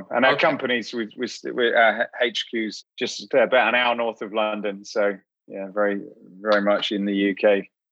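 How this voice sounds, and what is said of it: British English accent. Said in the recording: “Are you originally from the UK? ... Yeah, I am. Yeah, that's where this accent comes from.”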